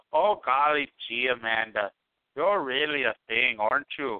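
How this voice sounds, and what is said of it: Put-on Minnesota accent. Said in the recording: “I was actually going for Minnesota.”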